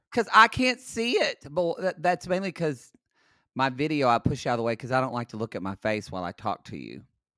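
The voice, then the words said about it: Low, tired-sounding voice. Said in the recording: “I went to Vegas yesterday. That's why my voice is low.”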